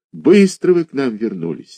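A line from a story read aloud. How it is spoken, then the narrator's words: Sigh. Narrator (Russian): вздохнул заведующий отделением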